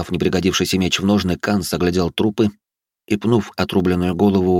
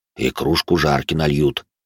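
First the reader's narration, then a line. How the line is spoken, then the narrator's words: Grumbling. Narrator (Russian): буркнул Грон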